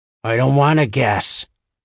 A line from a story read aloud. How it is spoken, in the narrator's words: Marjorie growled